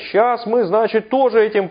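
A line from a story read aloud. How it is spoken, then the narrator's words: Shouting. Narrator (Russian): Эти немцы кричали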